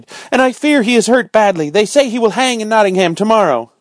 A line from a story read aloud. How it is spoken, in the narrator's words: she cried